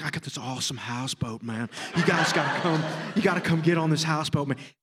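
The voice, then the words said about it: Imitates another person's voice. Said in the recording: “the best impression I've ever heard in my life.”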